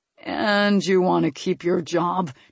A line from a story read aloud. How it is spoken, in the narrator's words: Tristan grumbled